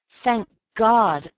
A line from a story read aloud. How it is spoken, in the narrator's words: I cried